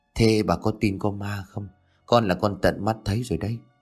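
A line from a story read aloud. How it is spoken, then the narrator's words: Soft, pale-lipped voice. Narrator (Vietnamese): đôi mùi nhợt nhạt khẽ nói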